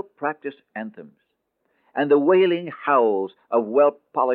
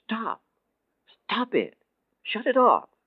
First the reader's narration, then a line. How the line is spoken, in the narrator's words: in stunned shock at the sight of their empty, joyless actions, he cried out